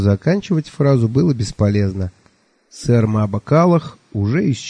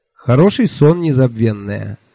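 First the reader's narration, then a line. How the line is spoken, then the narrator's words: Cheerful. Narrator (Russian): весело сказал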